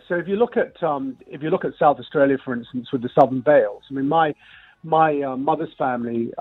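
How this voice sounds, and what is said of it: Very fruity English accent. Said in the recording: “I know I've got a very fruity English accent”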